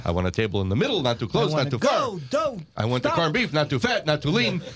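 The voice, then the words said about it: Imitates another person's voice. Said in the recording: “Does that sound like my Rodney Dangerfield? ... That was better than your Rodney impression. ... That was much better. ... You're getting closer.”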